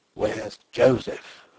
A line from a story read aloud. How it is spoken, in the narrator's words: muttered Zapp